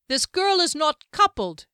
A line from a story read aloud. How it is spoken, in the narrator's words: cried in a clear voice